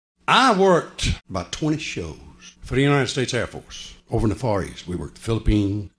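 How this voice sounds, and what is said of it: Southern American accent. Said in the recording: “he has a good representative Southern accent”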